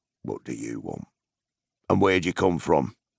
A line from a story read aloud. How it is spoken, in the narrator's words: he asked gruffly